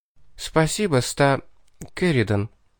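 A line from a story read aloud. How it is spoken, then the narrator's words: Quiet soft speech. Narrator (Russian): тихо, негромко молвила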